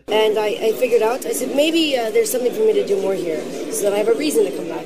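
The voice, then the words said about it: Odd European-sounding accent. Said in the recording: “her odd accent ... Lindsay started using this accent back in 2016. I guess you could call it European.”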